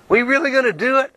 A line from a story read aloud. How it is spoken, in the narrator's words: exclaimed and giggled shrilly